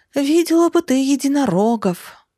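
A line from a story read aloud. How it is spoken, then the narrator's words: Wistful sigh. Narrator (Russian): Вздохнула я, вспомнив своего Савушу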